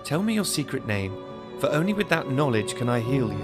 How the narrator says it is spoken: she pressed her advantage, stating in a sweet and soothing voice

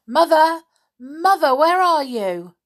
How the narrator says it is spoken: shouting loudly

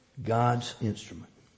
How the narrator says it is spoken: whispers with an air of cynicism

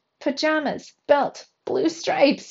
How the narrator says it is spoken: he cried

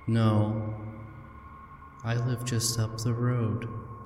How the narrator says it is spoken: says

